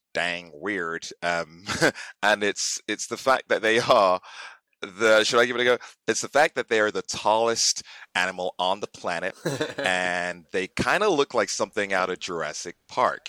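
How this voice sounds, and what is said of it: Put-on American accent. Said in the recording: “sprinkle in a little bit of your famous American accent”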